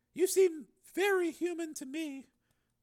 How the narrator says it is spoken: she said softly

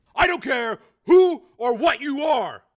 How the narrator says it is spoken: he said hotly into the phone

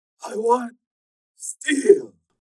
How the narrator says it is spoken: said hoarsely

